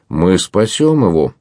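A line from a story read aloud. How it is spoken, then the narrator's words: Joyful exclamation. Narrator (Russian): радостно вскричал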